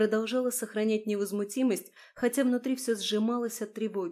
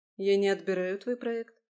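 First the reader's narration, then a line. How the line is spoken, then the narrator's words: Calm reply. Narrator (Russian): спокойно ответила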